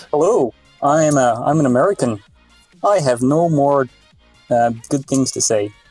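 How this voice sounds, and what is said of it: Put-on Midwestern American accent. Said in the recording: “Maybe I could try an American accent... That's not bad, actually... I would probably assume you were just some from like Midwestern part of America”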